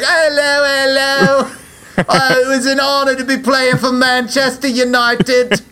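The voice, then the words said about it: High-pitched London accent impression. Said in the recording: “you are a London kid... He's got a high accent”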